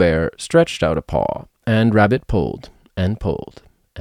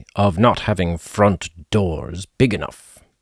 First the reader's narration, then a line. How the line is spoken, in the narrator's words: said Pooh crossly